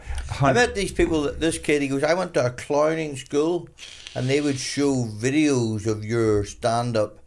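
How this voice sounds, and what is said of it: Strong accent. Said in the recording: “I've got a strong accent”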